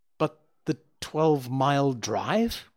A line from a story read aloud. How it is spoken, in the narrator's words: gasped Hatherley